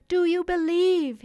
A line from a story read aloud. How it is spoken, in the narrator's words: he cried